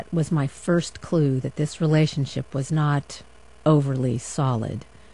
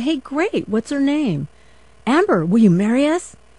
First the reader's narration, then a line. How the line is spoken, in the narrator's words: got all choked up